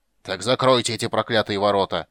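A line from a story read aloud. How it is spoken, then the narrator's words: Furious roar. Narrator (Russian): в ярости проревел Дункан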